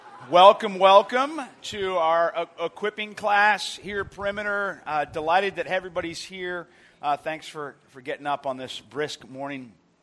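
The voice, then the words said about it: Raspy voice. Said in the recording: “raspy voice ... I should have cheered less yesterday”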